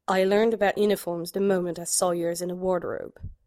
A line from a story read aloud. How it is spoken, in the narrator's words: murmured